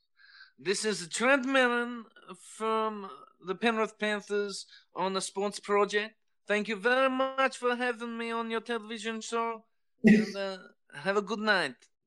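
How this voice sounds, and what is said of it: Comedic Borat-style accent impression. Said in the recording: “in your little Borat voice”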